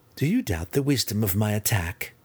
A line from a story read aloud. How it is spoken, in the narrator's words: Cynife asked, Malice, trying to keep a chuckle under her breath